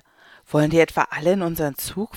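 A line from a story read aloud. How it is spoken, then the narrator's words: Mother asks, sighing. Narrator (German): fragt Mama und seufzt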